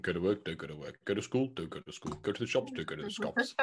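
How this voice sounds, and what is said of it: Imitates another person's voice. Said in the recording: “your best Boris impression.”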